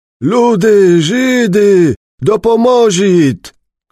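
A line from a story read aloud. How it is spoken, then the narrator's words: Shouting while moving. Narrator (Polish): krzyczał, nie zatrzymując się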